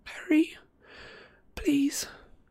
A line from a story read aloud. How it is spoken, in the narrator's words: Hermione pleaded weakly